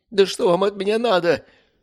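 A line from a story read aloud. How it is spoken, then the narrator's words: Pleading. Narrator (Russian): взмолился Борис Геннадьевич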